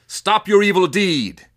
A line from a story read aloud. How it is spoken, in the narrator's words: shouted